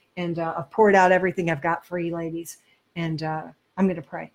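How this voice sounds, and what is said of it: Hoarse, strained voice. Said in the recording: “right now I'm losing my voice”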